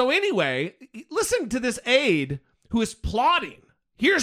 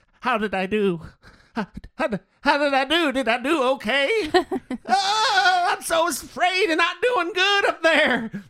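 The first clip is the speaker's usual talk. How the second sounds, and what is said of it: Unsure old man voice. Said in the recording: “the accent that you're using ... It's like an old man who's unsure of himself.”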